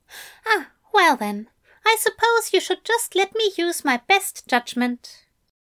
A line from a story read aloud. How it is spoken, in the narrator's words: said Aziraphale brightly